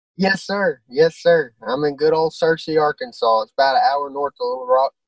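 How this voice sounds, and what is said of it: Strong regional Arkansas accent. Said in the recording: “That is a fucking wonderful accent, man. I love it. I love it.”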